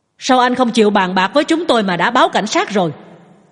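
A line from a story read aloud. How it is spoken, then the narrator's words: Roared. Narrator (Vietnamese): Lưu viện phó lập tức gầm lên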